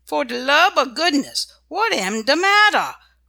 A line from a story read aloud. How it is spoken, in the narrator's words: cried Dinah